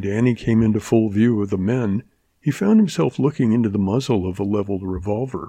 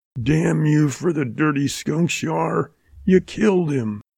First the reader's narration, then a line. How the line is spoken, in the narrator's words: The big man chuckled harshly